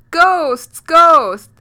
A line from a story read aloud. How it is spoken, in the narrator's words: A was so afraid and shouted